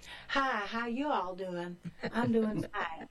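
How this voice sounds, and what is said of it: Poor imitation of American accent. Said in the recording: “that's a very poor American accent”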